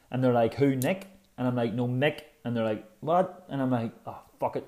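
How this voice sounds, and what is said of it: Irish accent. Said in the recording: “back in Ireland ... if you're from Belfast ... my accent”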